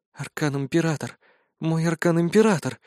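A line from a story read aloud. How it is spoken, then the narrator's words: Soundless whisper, lip bitten. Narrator (Russian): беззвучно шептала Мираэль, закусив нижнюю губу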